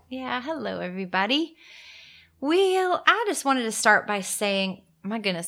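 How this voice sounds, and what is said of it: Southern American accent. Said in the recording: “I sounded very Southern right there.”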